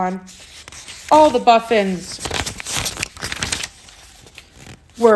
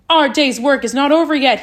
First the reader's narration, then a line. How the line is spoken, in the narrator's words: he said